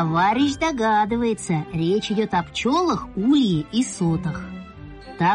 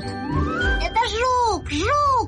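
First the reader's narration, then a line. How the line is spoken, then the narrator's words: Shouting. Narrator (Russian): закричал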